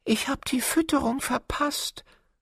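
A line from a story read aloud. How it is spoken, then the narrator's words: Sad hare. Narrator (German): sagte der Hase traurig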